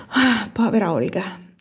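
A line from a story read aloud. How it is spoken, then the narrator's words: Sighed. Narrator (Italian): sospirò Giulia Capece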